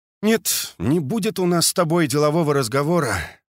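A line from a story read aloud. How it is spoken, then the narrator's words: Sighing. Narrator (Russian): вздохнул Лосенок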